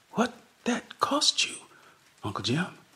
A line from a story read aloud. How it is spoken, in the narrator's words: Lottie whispered